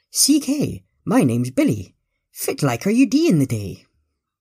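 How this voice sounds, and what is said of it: Posh English accent, Scottish Doric words. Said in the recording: “accent was akin to that of a Colin Frost or a Hugh Grant or even a Benicol Cumberbunny, yet the words he was using were definitely Scottish, more specifically Doric.”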